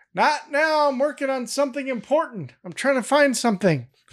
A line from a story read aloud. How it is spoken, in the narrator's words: Greg yells from inside